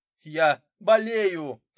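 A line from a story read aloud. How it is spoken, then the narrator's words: Shout. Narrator (Russian): крикнул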